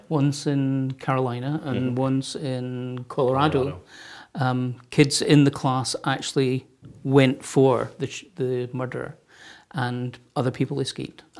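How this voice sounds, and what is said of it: Scottish Glasgow accent. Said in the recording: “your accent is it Chinese or... ... I'm from Glasgow in Scotland”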